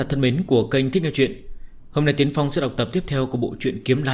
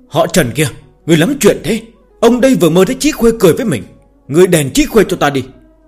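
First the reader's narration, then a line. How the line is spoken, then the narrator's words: Startled groggy loud yell. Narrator (Vietnamese): Lưu Tiễn Dương mơ màng ngủ nướng giật mình bừng tỉnh, hét ầm lên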